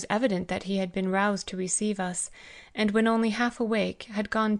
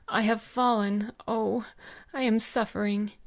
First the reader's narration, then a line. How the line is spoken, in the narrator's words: groaning, and exclaimed